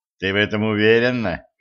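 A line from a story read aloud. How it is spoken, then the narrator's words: Skeptical snort. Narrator (Russian): хмыкнул Денис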